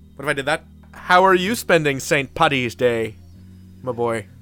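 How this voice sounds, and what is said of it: Exaggerated put-on Irish Belfast accent. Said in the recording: “the most offensive Irish accents we possibly can ... what if I wired my mouth shut and did a Belfast accent?”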